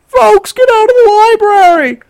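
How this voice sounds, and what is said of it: Panicky loudspeaker announcer voice. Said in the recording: “she's kind of panicky ... doing a different goddamn voice ... she did not sound like someone who should normally be talking on a loudspeaker or addressing anyone in public”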